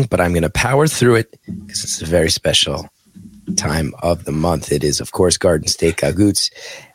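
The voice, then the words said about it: Strained, failing voice. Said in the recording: “My voice is dying”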